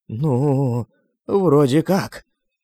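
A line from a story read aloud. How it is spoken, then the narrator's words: Uncertain, several voices. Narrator (Russian): неуверенно сказали несколько людей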